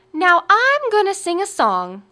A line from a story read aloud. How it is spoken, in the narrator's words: Ella called out